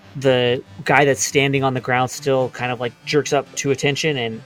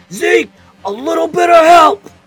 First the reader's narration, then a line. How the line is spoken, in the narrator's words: shouts like at the top of his lungs